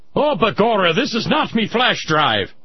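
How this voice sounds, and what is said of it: Put-on accent. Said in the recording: “I'll catch hell for the accent, probably.”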